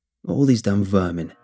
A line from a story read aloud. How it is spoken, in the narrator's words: he growled